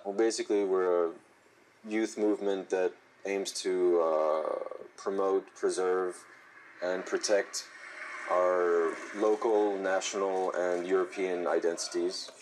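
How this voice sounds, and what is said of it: French man with American accent. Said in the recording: “sports an American accent after living in the U.S., but he's French”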